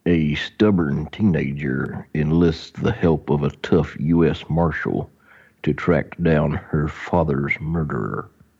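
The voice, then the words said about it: Impression of a movie voice. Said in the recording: “That was my truest grit impression.”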